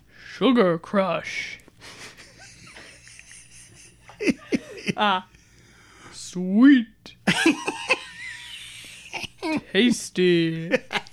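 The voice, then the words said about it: Imitates a game announcer voice. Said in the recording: “impersonation of the voice announcer ... On Candy Crush”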